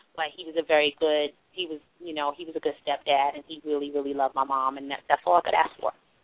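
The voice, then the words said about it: Strong Brooklyn accent. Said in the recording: “my Brooklyn accent ... my accent gets very, very strong when I'm comfortable ... My accent comes out strongly ... your accent is so strong”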